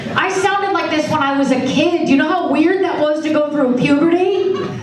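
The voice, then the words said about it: Old-fashioned 1940s-style speaking voice. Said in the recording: “I sound like I'm from another time period ... I just say the 1940s”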